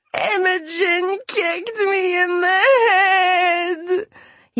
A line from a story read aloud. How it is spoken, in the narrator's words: he wailed